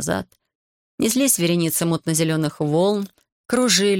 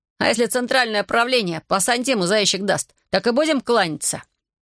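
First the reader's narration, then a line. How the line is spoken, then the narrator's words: Sullen grumbling fishermen. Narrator (Russian): Рыбаки хмуро ворчали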